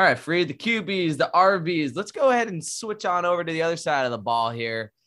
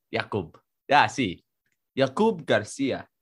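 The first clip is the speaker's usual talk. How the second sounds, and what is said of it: Put-on Spanish accent. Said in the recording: “I'm allowed to speak in a Spanish accent.”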